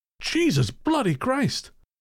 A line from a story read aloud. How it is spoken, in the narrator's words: my grandfather, who yelled